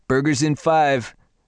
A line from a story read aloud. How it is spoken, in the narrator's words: Javier yelled